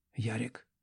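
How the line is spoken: Whisper. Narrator (Russian): прошептала она наконец

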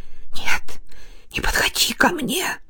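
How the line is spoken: Whispered. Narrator (Russian): Беременная прошептала

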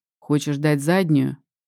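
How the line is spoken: Calm question. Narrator (Russian): спрашивает спокойно Вадим

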